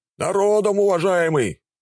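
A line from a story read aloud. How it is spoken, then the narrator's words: Shout from crowd. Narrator (Russian): выкрикнули из толпы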